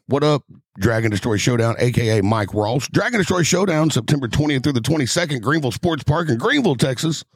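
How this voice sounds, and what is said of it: Announcer-style radio voice. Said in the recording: “It's beneficial to have that radio voice.”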